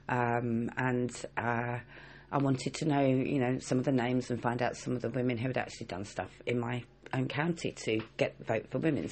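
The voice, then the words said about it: Essex English accent. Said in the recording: “Essex suffragettes, because that's where I'm from. You can probably tell by the accent. ... I'm an Essex girl”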